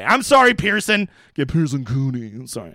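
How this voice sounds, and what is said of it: Imitates another person's voice. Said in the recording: “I'm trying to do that Pat Mayo voice.”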